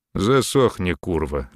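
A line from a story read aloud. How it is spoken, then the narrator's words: Lazy command. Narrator (Russian): лениво велел Мерин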